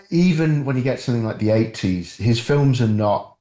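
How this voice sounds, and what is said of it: Usual voice. Nothing is said of it.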